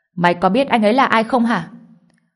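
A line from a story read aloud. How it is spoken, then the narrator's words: Shout. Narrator (Vietnamese): hắn quát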